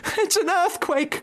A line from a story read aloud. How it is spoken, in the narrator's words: cried Mrs